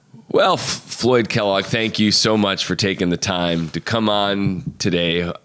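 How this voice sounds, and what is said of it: Podcast host wrap-up tone. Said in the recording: “here's my wrap up tone of voice.”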